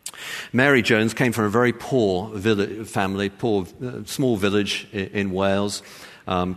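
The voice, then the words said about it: English accent. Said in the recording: “with my English um, accent”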